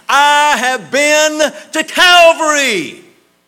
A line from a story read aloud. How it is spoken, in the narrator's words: in a bold voice, replies